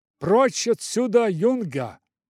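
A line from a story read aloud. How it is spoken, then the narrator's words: Shouted. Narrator (Russian): крикнул он мне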